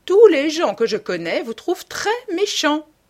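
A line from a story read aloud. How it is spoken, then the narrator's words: Old woman exclaiming. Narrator (French): s'écria la vieille dame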